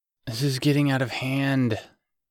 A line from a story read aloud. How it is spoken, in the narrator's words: he groaned